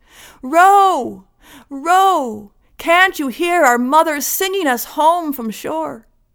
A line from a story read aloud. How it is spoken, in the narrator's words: he called out